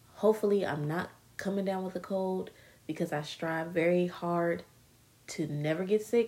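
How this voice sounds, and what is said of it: Slightly stuffy, congested voice. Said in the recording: “My nose is a little stuffy, so if I sound a little weird”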